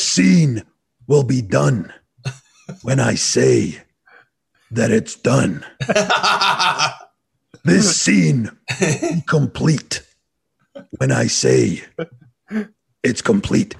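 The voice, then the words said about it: Slow imitation of another person's voice. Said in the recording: “great impersonation ... talk slowly”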